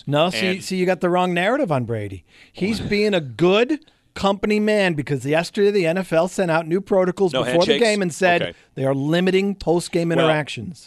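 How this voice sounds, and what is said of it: Sarcastic tone. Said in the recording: “I'm being sarcastic, by the way... I'm just being a jerk with Brady.”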